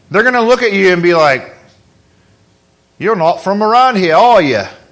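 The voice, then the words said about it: Put-on Australian accent. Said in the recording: “Well, that's Australian, the wrong pond, wrong land.”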